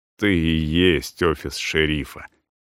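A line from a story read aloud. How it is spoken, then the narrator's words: Polite sigh. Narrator (Russian): вежливо повторно вздохнул Кузетовец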